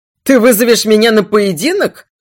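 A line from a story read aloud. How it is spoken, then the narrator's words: Incredulous laughing prince. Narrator (Russian): недоверчиво рассмеялся принц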